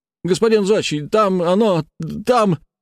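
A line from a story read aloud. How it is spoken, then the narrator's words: Shouting technomancer. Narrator (Russian): кричал техномант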